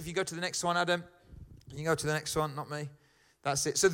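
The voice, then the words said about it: Birmingham (Brummie) English accent. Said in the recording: “I'm a Brummie, all right? our accent is the most hated accent in the country”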